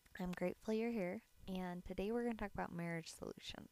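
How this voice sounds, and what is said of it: Raspy morning voice. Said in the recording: “my voice is kind of raspy”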